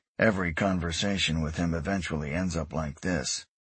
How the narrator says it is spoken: Eric said softly

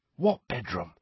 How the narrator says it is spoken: said Harry, dropping his voice to a whisper

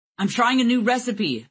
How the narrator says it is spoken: shouted over the alarms

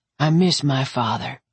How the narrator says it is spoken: Derek said

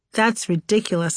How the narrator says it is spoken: I said

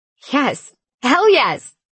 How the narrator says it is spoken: I shouted

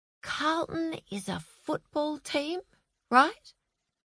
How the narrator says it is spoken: whispered Frances to Ben

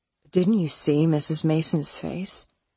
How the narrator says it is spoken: Elliot said

